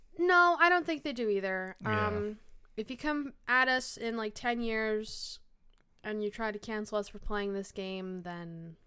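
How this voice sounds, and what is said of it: Slightly deeper, sick-sounding voice. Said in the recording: “My voice sounds a little deeper because I'm a little bit sick, maybe ... that's why I might sound a little different”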